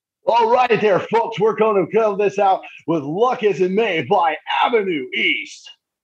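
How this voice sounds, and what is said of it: Cheesy morning radio DJ voice. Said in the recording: “cheesiest radio intro... in the cheesiest morning zoo radio voice”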